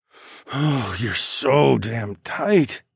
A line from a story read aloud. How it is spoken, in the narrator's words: I moaned